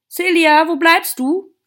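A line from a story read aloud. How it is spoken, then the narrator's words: Mother calling out. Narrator (German): rief Celias Mutter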